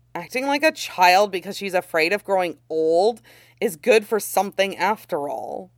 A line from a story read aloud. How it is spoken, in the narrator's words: grumbles